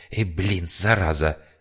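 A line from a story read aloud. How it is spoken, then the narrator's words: Hissed. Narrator (Russian): прошипел философ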